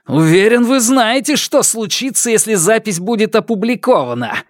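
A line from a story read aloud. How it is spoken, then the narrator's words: Shouting at someone. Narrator (Russian): закричал на нее Сяо Вон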